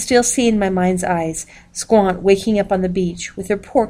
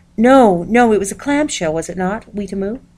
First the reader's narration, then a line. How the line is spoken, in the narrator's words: Wutaniukuski bounced up right out of her bearskin and cried